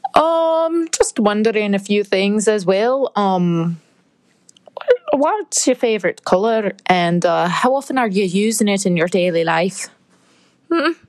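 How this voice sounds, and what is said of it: Terrible put-on accent drifting Scottish. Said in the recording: “the terrible accent ... you started out with some accent and then it became Scottish or something”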